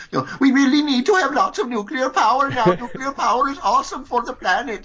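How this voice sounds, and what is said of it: Put-on Swedish accent, teen. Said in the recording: “a 14-year-old Swedish kid saying ... my Swedish accent”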